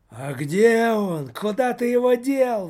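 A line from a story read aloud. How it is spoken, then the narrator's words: Ogre roaring. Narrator (Russian): взревел Жор-людоед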